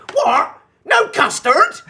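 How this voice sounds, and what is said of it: Imitated Bristol accent. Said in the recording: “from Bristol ... their accent stuck out like a sore thumb ... the bloke from Bristol”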